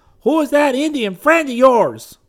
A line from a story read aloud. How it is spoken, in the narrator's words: voice was hoarse as he shouted